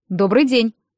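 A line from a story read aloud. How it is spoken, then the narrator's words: Low male voice. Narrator (Russian): отозвался мужчина низким голосом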